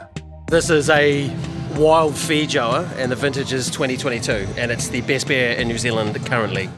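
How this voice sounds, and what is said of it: New Zealand accent. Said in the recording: “the New Zealand accent.”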